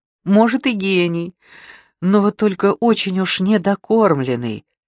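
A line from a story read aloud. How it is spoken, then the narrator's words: Laughing. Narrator (Russian): смеялась Маруся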